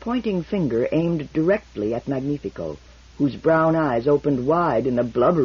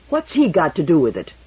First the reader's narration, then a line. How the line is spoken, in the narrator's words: demanded Toran fiercely